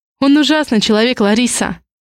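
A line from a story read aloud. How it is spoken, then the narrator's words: Sharp exhale. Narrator (Russian): резко выдыхаю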